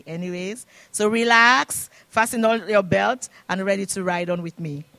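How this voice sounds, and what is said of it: Non-Canadian foreign accent. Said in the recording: “I don't have Canadian accent. I have my own accent,”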